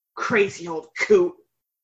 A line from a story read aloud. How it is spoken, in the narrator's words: a man hissed